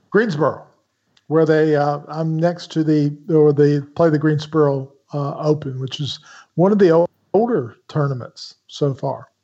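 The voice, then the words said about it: Southern accent, cynical tone. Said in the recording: “this cynical voice with a Southern accent”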